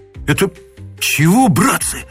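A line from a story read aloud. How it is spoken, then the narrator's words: Breathless exhale. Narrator (Russian): выдохнул кто-то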